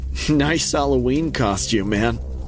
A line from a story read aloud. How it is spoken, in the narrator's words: chuckled